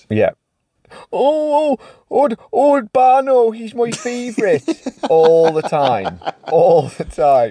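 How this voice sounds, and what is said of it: Put-on Irish accent. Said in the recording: “you do a much better Irish accent than I do”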